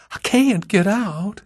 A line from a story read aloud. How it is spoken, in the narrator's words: whimpered